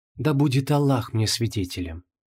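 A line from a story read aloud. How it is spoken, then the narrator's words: Quiet. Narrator (Russian): тихо сказала Инанна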